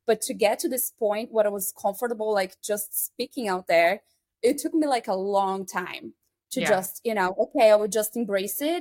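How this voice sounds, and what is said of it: Strong non-native English accent. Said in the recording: “I know I have like a very strong accent too... It's my second language.”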